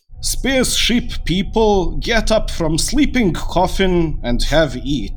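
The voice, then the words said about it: Put-on Russian accent. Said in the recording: “I'm going to do a Russian accent.”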